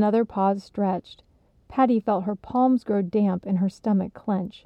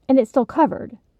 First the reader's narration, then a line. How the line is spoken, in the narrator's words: Patty asked urgently